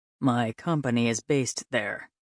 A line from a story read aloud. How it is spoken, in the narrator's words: he said dryly